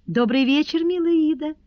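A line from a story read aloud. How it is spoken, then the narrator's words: Muted but cheerful. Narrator (Russian): сказала госпожа Перманедер приглушенным, но веселым голосом, ибо рассказ брата привел ее в наилучшее расположение духа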